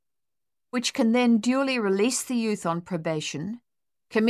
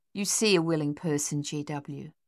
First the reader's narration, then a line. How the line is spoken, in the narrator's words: Lily said softly